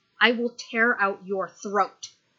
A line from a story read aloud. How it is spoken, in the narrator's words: he snarls